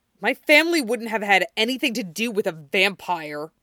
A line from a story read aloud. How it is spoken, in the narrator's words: growled